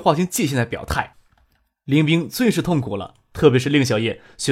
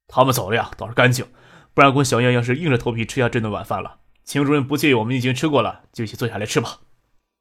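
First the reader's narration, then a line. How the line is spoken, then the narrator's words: Warm, smiling. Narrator (Chinese): 朱小军一反刚才冷漠，热情的笑着说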